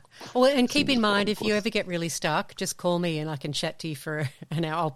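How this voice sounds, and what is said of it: Sexy-sounding accented voice. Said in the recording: “that lady that talks in the sexy accent ... my sexy voice ... My phone sex voice ... you have the best phone sex voice”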